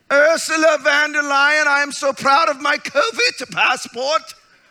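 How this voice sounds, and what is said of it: German-accented impression of Ursula von der Leyen. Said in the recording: “Everybody's got a German accent too ... She sounds like a character on Hogan's Heroes.”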